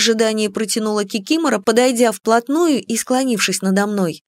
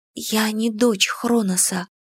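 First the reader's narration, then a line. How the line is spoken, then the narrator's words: Hopeful whisper. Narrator (Russian): прошептала я, лелея надежду, что на этом тема будет исчерпана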